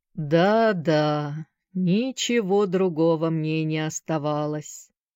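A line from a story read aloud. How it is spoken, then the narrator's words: Slow, thoughtful, absent-minded. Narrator (Russian): произнес мистер Шафта так медленно и задумчиво, словно бы он совершенно позабыл, что разговаривает с Сэнди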